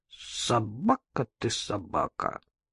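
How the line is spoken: Muttering with sighs. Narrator (Russian): сопя, вздыхая и бормоча

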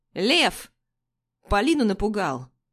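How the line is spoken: Young man barking. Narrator (Russian): Рявкает кто-то из парней

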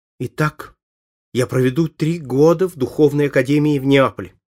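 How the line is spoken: Exclaimed. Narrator (Russian): воскликнул Фабриций

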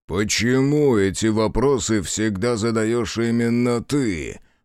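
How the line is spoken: Growling. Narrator (Russian): прорычал Ринго

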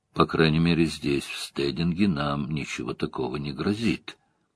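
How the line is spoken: Quiet mutter. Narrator (Russian): тихо пробормотал

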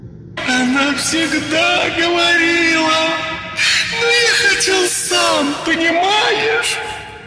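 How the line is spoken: Sobbing ghostly child. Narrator (Russian): Всхлипывал светящийся полупрозрачный силуэт ребенка

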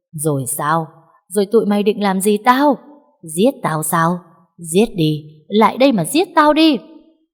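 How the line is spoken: Manic loud laughter. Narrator (Vietnamese): Bà ta cười lớn lên như một người điên

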